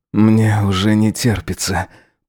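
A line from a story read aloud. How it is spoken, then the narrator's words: Moaning. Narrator (Russian): простонал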